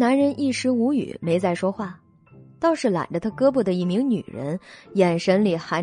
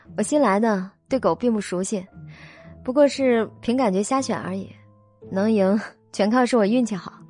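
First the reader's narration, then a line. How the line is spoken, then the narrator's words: Sweet smile. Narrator (Chinese): 肖九九嫣然一笑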